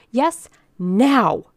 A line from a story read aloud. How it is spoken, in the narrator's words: cried Mrs